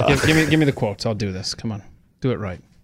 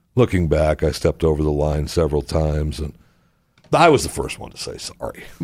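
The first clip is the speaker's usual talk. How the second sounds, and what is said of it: Imitates another person's voice. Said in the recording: “in an Arnold Schwarzenegger voice”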